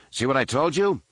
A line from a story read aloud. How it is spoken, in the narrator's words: Han exclaimed